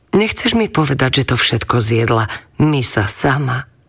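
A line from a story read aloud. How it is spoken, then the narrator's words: Mother, smiling. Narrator (Slovak): jej mama len s úsmevom povedala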